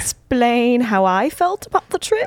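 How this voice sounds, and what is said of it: Put-on posh accent. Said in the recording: “Are you talking like that now? ... I talk with this little posh accent.”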